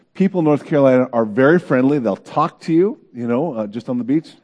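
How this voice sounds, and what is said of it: Non-local accent. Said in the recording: “I knew you weren't around from here because you have an accent”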